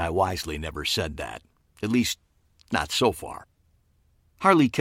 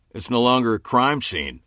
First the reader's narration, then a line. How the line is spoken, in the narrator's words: Homicide Detective Fred Hutton grunted